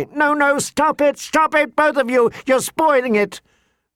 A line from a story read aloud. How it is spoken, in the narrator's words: Sansa was shrieking